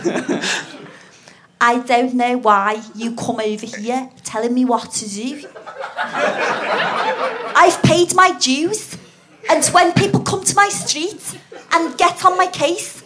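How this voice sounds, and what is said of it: Attempted Scouse accent. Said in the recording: “Shall I try and do Scouse? ... I can't do accents that well”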